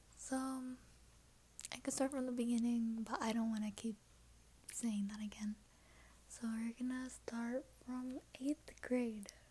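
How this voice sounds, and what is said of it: Whispering quietly. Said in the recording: “that's why I'm whispering. It's super quiet, I don't want anybody to hear me.”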